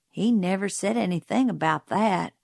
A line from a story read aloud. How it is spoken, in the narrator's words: Jim muttered